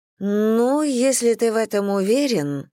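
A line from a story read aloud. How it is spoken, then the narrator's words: Drawling. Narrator (Russian): протянула Дженнифер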